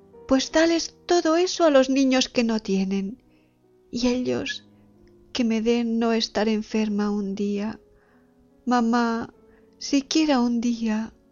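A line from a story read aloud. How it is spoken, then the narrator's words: Sick girl exclaiming. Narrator (Spanish): Callaba la enferma un minuto, y las abría luego para exclamar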